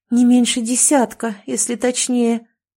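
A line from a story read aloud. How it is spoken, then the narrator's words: Trembling voice. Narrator (Russian): дрожащим голосом сказала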